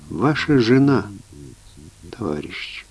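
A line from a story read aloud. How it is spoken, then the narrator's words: Quiet. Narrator (Russian): Гармонтов тихо произнес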